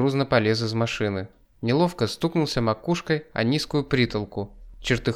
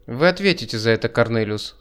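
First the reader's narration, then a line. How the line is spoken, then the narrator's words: Dry remark. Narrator (Russian): сухо проронил я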